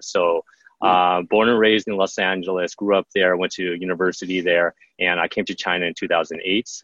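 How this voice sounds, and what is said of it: American English accent. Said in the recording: “If you can't tell by my accent, I like to say that I was made in the USA”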